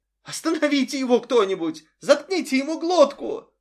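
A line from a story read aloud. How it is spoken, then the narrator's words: Woman shrieking. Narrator (Russian): завизжал кто-то из женщин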